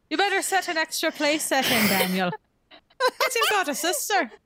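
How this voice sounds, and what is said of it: Put-on, not very good Irish accent. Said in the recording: “when you do that accent, like that character comes alive like so profoundly ... It's not even a good Irish accent.”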